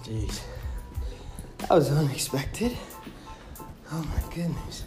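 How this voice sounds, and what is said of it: Out of breath, panting. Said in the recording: “out of breath”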